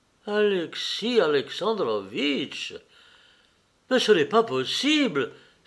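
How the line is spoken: Pained exclamation. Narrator (French): s'écria-t-il avec douleur

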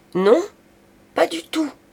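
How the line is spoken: Shouted back. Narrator (French): cria-t-elle à son tour

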